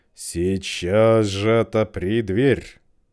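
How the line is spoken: Wolf's growl. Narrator (Russian): прорычал опять волк

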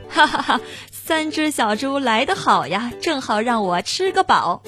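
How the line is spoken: Big hearty laugh. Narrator (Chinese): 大灰狼，他听说来了三只小猪，哈哈大笑说

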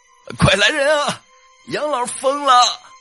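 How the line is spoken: Piercing shout. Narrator (Chinese): 这一声喊，把安静的空气硬生生的撕开了一道口子

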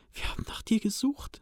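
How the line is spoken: Excited whisper. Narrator (German): flüsterte er aufgeregt in Sams Ohr

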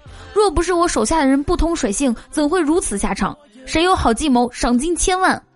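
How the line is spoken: Furious. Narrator (Chinese): 曹操大怒

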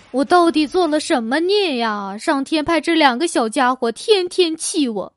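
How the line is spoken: Exasperated sighing. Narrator (Chinese): 老王的老婆在家被两个儿子气到唉声叹气

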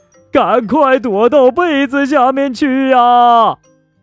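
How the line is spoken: Group crying out tearfully. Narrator (Chinese): 这一群人呐，带着哭腔喊道

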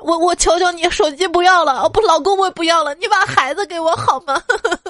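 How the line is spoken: Frantic sobbing shout. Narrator (Chinese): 电话那头疯了，孩子他妈哭着大喊

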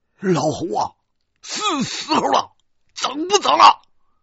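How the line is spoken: Shouting. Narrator (Chinese): 大个子对我喊

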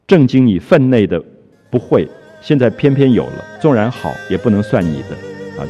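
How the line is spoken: Teasing. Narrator (Chinese): 开他的玩笑

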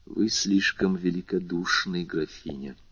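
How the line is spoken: Unusually soft, respectful. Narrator (Russian): сказал он необычайно мягко и почтительно

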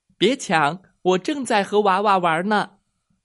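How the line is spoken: Loud, amplified. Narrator (Chinese): 妮妮用魔力麦克风大声说

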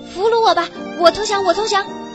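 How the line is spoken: Eager shout in unison. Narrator (Chinese): 其他六个人也一起争先恐后，齐声喊

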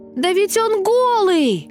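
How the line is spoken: Small boy's sudden shout. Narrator (Russian): закричал вдруг какой-то маленький мальчик

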